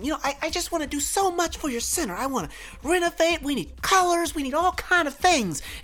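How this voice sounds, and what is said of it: Imitated Southern American accent. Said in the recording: “this white woman with the southern accent.”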